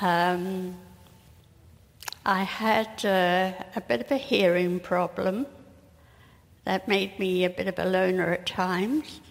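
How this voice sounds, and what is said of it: Non-Canadian accent. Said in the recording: “we can tell by your accent that you're not from Canada”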